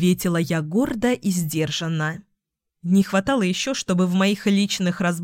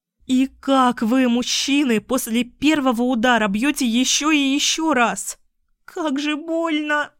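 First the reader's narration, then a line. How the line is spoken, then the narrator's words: Moaning. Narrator (Russian): Стонала я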